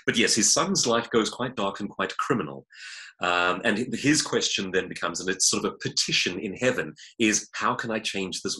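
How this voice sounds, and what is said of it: South African accent. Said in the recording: “you can possibly tell from my accent, I I'm, i was born in South Africa”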